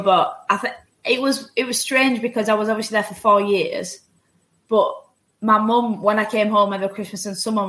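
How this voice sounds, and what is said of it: Slight Yorkshire English accent. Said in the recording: “I'm getting a tinge of Yorkshire. Yeah, definitely.”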